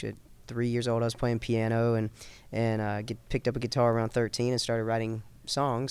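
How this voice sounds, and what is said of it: North Carolina accent. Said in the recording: “You can tell by the accent ... born and raised in North Carolina”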